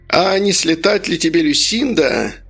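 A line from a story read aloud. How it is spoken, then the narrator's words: Toothless pensive mumble. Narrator (Russian): Он задумался, шамкая губами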